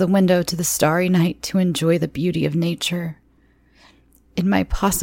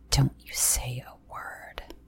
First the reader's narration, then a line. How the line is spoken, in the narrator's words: he hissed